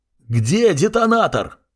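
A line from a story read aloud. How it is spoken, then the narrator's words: Yelling. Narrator (Russian): заорал я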